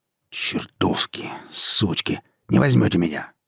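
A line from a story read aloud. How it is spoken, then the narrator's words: Growled. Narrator (Russian): прорычал он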